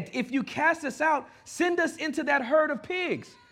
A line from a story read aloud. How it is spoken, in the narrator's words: the demons begged